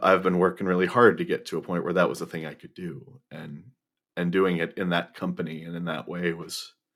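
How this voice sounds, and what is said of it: Emotional, overwhelmed voice. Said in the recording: “as you can now hear in my voice... Overwhelming.”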